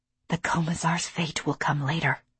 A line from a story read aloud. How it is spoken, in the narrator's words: I whispered